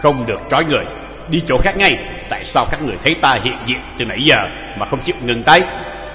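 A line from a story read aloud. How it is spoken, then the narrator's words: Cold young man. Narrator (Vietnamese): thanh niên công tử lạnh lùng nói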